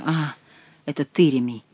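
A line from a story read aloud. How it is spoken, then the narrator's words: Muttered. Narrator (Russian): пробормотал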